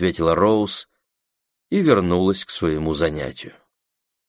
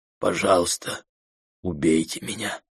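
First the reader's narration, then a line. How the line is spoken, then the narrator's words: Barely audible whisper. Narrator (Russian): чуть слышно прошептал Брэд Тревор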